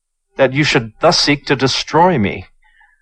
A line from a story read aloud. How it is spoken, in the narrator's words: cried Chu